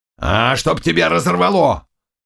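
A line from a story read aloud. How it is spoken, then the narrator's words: Thundering voice. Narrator (Russian): прогремел Заглоба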